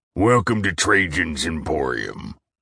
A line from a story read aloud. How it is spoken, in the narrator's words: he grumbled, his voice gruff